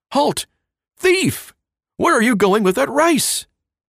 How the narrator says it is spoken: a guard cried

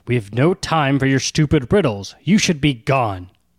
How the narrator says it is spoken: Duri just growls at the dwarf

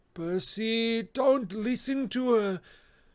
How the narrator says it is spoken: Grover moaned

